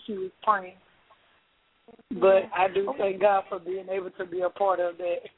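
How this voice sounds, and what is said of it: Hoarse voice. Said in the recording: “I'm kind of hoarse.”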